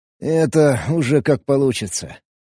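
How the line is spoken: Euphoric grumbling. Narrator (Russian): Проворчал я, все еще кайфуя от притока энергии

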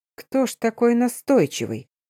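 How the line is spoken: Muttering. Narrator (Russian): пробормотал Стефан

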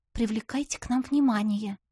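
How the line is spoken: Quiet. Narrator (Russian): сказала тихо

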